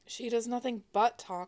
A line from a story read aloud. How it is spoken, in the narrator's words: one of the guards grumbled